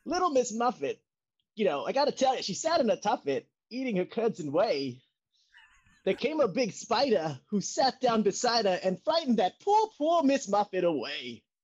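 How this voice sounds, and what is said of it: Imitates another person's voice. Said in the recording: “my impression of Christopher Walken reading a nursery rhyme to his grandchildren”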